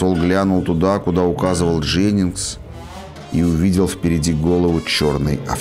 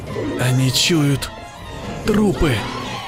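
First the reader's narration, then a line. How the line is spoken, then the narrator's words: Whisper. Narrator (Russian): прошептал Дженнингс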